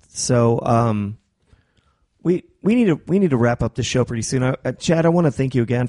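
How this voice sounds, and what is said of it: Strained, failing voice. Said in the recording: “I'm sure everybody can tell, but my voice is on the way out.”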